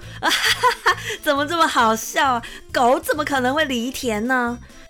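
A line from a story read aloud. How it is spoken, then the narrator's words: Laughing loudly. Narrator (Chinese): 杂货商哈哈大笑的说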